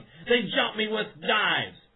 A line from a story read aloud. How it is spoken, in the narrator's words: bleeding profusely and shouting